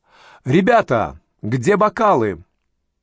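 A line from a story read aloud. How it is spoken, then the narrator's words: Cheerful shout. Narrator (Russian): Элеонора весело крикнула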